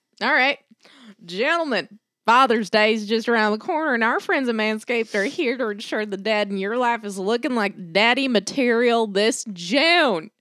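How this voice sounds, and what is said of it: Put-on Western accent. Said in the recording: “What's our accent today? ... I haven't done Western yet, have I?”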